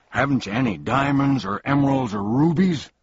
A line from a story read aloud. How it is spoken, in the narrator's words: asked the bug irritably, for he was quite disappointed in what he'd seen so far